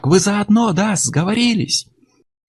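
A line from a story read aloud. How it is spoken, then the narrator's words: Yelling. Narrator (Russian): Он завопил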